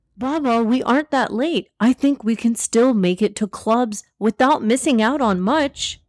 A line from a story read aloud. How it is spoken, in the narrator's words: Zaid exclaimed